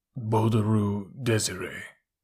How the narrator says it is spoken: A thick, slow voice muttered

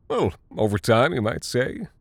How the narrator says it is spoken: chuckled

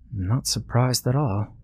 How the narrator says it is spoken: said Sarah quietly

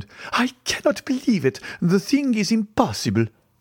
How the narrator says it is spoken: Madame Danglars turned very pale, then exclaimed

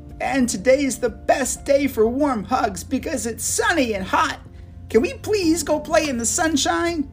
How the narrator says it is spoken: Elsa laughed

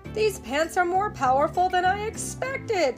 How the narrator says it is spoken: SpongeBob cried

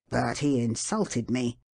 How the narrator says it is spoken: muttered the usher

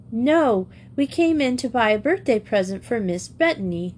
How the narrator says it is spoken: exclaimed Grizel

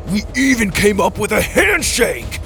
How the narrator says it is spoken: Dallas roared

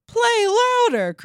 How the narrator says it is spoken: cried the widow

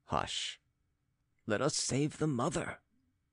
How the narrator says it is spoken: whispered Philip

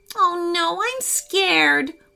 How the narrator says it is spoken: Weston whimpered

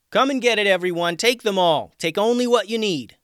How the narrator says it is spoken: Tatiana yelled out

